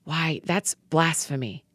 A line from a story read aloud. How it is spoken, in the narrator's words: some religion scholars whispered